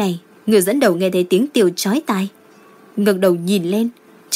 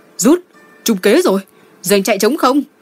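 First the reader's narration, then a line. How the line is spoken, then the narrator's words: Shouted. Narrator (Vietnamese): Người tiền phong hét lên một tiếng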